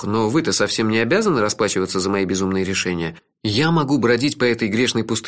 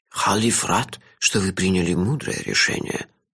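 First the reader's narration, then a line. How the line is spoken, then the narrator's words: Old man whispering. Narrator (Russian): зашептал старик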